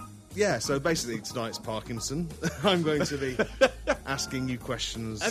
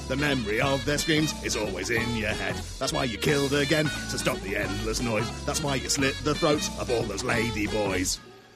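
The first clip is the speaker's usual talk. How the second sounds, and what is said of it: Low raspy character voice. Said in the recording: “that voice makes your throat a bit raspy as well. ... You were on the lower octave”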